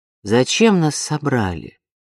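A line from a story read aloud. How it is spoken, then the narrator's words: Plain. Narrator (Russian): спросила мадам Фурнье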